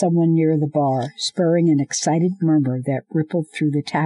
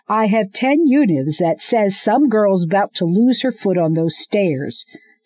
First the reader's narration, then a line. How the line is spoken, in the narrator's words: someone shouted